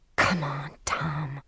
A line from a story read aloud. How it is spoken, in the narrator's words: she whispered